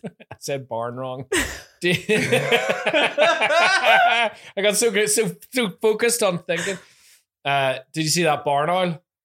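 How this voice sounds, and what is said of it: Northern Irish accent. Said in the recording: “My favorite one in Northern Irish accent ... I love your accent”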